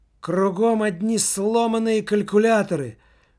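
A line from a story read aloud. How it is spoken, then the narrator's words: Desperate exclamation. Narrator (Russian): В точно таком же отчаянии, в каком он был в кабинете главы представительства, воскликнул Немаркетинг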